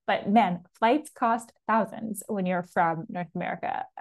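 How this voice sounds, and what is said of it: Canadian accent. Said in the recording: “as you could tell by my voice, I'm Canadian”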